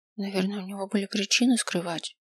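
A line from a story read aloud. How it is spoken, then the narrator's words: Quiet. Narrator (Russian): тихо сказала я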